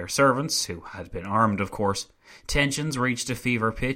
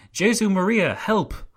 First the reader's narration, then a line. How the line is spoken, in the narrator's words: One of the councillors who had been thrown out of the window cried